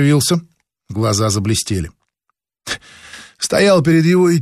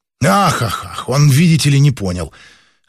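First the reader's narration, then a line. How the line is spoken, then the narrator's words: Scoff suppressing anger. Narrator (Russian): хмыкнул, подавляя приступ злости Кирилл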